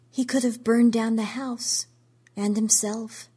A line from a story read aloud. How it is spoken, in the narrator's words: she said in a dull voice